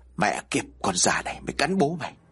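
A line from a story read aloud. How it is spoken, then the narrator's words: Harsh gritted voice. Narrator (Vietnamese): Chi gằn giọng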